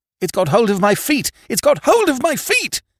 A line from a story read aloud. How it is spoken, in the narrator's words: he screamed